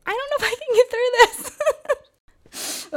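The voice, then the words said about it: Choked-up, tearful voice. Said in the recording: “I'm already getting choked up.”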